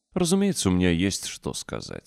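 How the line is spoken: Calm prisoner's reply. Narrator (Russian): спокойно ответил наш узник

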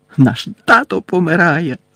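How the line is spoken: Shouted. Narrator (Ukrainian): закричав Джордж

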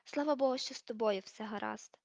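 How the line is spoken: Sighed. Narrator (Ukrainian): зітхнула вона

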